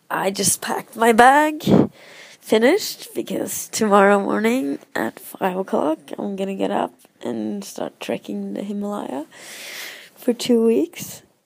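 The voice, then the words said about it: Voice rough from a cold. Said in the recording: “my voice is a bit bad, but I'm having a bit of a cold.”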